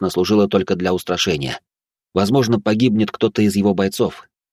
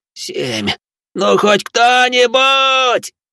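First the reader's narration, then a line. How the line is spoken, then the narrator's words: Full-voiced yell. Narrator (Russian): он уже орал в полный голос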